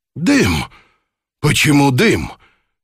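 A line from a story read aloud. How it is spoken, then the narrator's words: Exclaiming. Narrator (Russian): воскликнул шевалье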